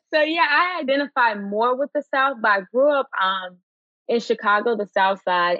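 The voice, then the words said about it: Southern American accent. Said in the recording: “I can hear your Southern accent.”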